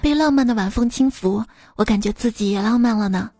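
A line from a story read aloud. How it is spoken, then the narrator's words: Admiring exclamation. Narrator (Chinese): 朋友看到美丽的夜景，感叹道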